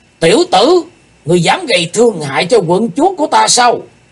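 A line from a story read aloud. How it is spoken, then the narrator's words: Sudden deep heavy shout. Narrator (Vietnamese): Chợt có một giọng quát nặng trầm nổi lên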